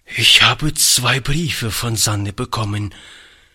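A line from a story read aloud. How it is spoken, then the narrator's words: Old man's trembling voice. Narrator (German): fuhr der Alte mit zitternder Stimme fort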